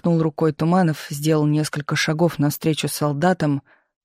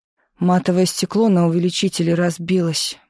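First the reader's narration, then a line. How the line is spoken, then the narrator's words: Gloomy report. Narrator (Russian): мрачно сообщил он подошедшему Туманову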